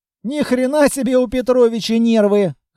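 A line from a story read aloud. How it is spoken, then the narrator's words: Amused snort. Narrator (Russian): хмыкнул Длинный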